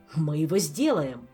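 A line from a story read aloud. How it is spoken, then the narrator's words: Happy exclamation. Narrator (Russian): счастливо воскликнул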